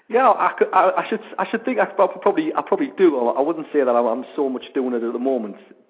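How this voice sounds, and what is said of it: Northern English accent. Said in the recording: “I have got a very, very northern accent, but not as northern as I used to have.”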